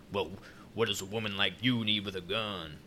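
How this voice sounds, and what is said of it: Put-on southern accent. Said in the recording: “he has a southern accent ... he's southern”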